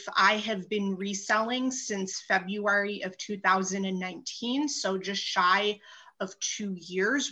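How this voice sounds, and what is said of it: Northern US accent. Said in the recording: “I was born in New York ... So I kept the Northern accent”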